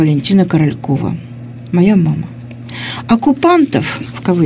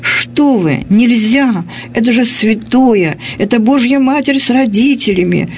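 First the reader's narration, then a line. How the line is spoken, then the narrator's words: Mother shouting. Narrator (Russian): закричала моя мама, старший лейтенант Королькова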